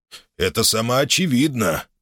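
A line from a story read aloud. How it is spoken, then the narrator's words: Deep bass voice. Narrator (Russian): пробасил Гамалей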